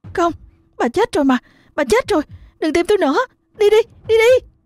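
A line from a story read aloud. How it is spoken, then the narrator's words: Trembling stammering scream. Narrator (Vietnamese): hét lên, liên tục lắp bắp mà nói trong sự run rẩy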